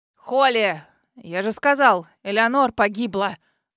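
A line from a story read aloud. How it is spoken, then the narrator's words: Barking shout. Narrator (Russian): Рявкнул мсье Севард, которого еще совсем недавно забавляла наша беседа с Терренсом, и вдруг супруга все испортила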